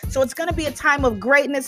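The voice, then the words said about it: Excited, energetic voice. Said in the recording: “So I am excited. If you can't hear it in my voice”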